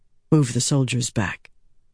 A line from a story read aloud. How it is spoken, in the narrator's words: Andral said softly